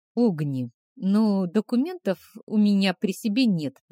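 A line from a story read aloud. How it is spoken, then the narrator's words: Barely audible mumble. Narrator (Russian): промямлила еле слышно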